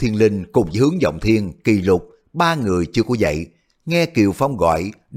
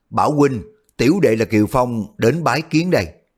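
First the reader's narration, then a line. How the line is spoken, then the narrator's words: Loud call. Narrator (Vietnamese): lớn tiếng gọi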